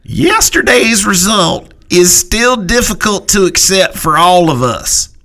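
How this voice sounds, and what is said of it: Imitates another person's voice. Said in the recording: “in my best Gail Benson voice”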